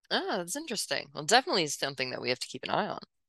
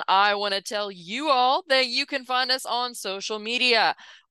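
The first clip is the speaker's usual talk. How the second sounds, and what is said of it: Newscaster-style announcer voice. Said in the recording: “getting my news voice back on”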